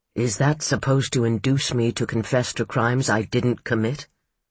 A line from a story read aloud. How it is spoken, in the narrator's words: he asked quietly